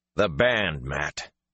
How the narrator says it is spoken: Rand snapped

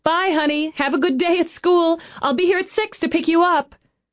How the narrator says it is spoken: She held herself back from shouting

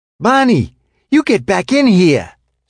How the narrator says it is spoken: said Betty, her voice shrill with fear

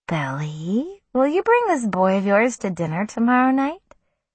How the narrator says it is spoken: Susanna asked me sweetly

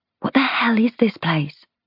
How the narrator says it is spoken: I whisper to Theo

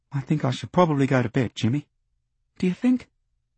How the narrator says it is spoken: I speak softly

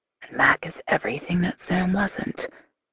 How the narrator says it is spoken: I whisper aloud

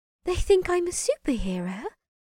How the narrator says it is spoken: Lily said softly

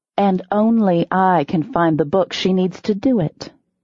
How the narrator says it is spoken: I said coolly

